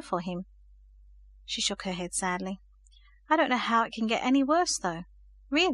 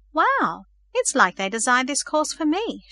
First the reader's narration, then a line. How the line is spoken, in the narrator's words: she exclaimed aloud